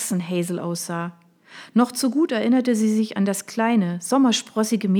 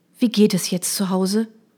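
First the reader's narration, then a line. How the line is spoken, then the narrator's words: Sighing. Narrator (German): Hazel seufzte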